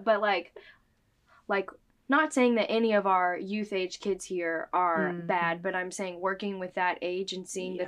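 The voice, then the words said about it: Choked-up, emotional voice. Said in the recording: “I'm like getting all sad now, all choked up.”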